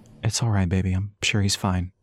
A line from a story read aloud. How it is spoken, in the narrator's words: Elias said softly, his breath tickling her ear